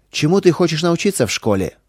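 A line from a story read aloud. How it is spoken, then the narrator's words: Chief asking sternly. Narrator (Russian): строго спросил вождь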